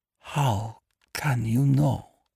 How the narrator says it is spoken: she whispered

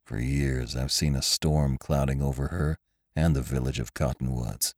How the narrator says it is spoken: muttered Venters

